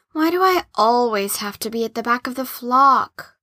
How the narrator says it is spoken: moaned Cabbie

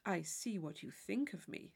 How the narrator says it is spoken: said he gravely

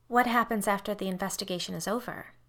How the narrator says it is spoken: I asked quickly

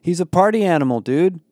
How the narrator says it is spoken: Connor yelled back

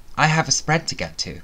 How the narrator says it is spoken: said

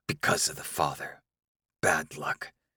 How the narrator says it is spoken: the elders hiss

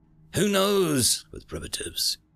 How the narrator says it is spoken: Moovo Art sighed

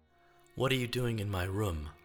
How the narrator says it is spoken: Otto asked

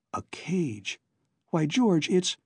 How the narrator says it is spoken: Alan murmuring

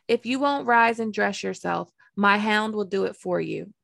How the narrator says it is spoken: Joffrey said

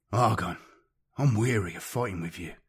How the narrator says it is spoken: Sartak replied with a sigh

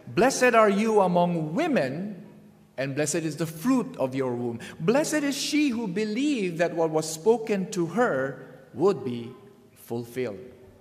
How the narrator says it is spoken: She exclaimed, she says

